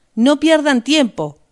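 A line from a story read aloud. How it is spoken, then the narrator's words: Shout. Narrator (Spanish): gritó Rost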